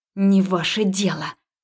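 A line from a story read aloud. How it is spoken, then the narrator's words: Hissing. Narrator (Russian): зашипела я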